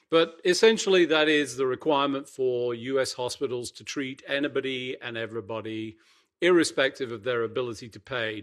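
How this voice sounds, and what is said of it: Unusual accent. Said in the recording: “you said Emtala weirdly with this weird accent of yours”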